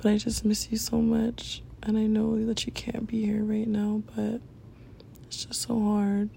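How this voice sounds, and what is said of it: Raspy, strained voice. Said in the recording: “losing my voice, so just ignore it. I know it's like really raspy”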